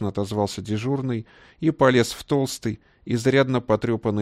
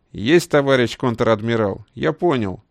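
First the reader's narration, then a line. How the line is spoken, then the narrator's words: Brisk cheerful report. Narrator (Russian): бодро отрапортовал Боровиков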